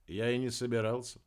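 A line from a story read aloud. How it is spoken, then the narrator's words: Calm. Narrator (Russian): спокойно ответил Дебер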